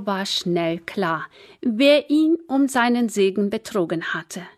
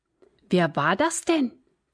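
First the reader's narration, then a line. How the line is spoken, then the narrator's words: Plain. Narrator (German): fragte er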